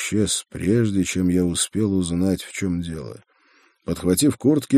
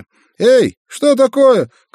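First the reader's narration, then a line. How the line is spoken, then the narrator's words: Bewildered shout from behind. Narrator (Russian): крикнул нам в спину студент, который, разумеется, ровным счетом ничего не понимал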